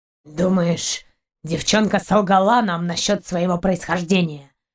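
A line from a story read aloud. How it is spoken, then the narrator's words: Muffled reply, dog. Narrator (Russian): Глухо отозвался пес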